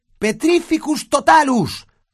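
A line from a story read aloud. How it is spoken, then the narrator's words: Shouted. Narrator (Spanish): gritó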